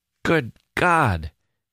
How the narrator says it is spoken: kept exclaiming

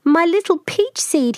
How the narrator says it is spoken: cried

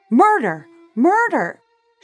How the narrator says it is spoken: Shocked out of her silence, Jacquette screamed from her second-story window

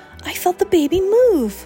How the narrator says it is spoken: exclaimed, amazed

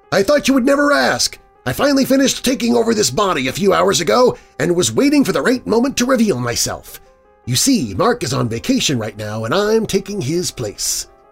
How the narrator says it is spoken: In a voice much higher than his regular voice, exclaimed

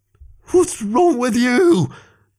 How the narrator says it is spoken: Greg shouted at all of them through tears

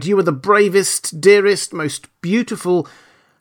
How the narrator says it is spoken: he cried

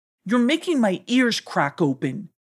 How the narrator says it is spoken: cried Abu

